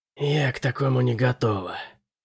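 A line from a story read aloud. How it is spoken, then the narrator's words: Breathless exhale. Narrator (Russian): выдохнула Генри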